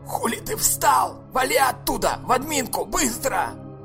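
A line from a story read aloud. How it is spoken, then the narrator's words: Deafening yell. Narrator (Russian): Вадим орал в ухо громче паровозного гудка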